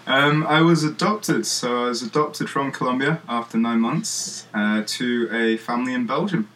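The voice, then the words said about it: English accent. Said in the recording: “sound like you're from England”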